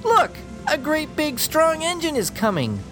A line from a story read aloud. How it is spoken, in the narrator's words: the little clown called out